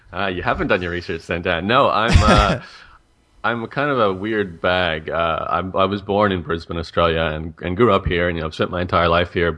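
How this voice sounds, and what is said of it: Canadian-tinged accent with some Australian. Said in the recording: “the Canadian kind of stuck with me. So there's definitely some Aussie in me as well”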